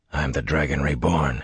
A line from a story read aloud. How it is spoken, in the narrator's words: he muttered